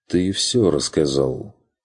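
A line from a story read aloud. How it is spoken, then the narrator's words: Quiet agreement. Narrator (Russian): согласился Курт тихо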